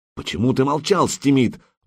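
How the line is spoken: Exclaiming. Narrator (Russian): воскликнул Сигурд

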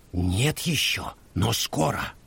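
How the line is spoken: Quiet reply. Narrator (Russian): ответила так же тихо

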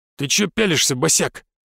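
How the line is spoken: Barking, middle-aged man. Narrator (Russian): рявкнул мимо проходящий мужчина лет 40

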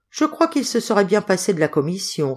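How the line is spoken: Plain. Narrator (French): répondit Hubert

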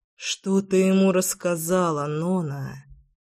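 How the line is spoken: Thoughtful mutter. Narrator (Russian): пробормотал я задумчиво

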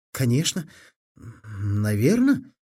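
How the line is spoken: Uncertain. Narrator (Russian): сказал неуверенно Фили

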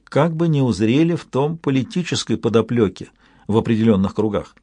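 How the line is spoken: Very quiet. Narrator (Russian): очень тихо добавила

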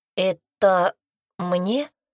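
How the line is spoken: Uncertain question. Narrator (Russian): спросил он неуверенно

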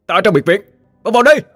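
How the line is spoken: Hurried loud shout. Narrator (Vietnamese): Cậu vội vã hét lớn

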